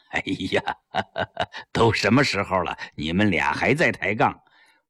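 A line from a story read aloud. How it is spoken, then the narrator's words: Laughing. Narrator (Chinese): 张澜笑着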